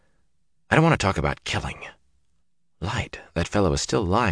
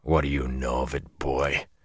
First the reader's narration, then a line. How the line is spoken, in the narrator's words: Tom snarled